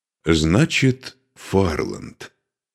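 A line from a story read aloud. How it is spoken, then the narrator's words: Calm. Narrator (Russian): спокойно произнес Духарев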